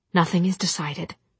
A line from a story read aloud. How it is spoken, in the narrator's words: voice shook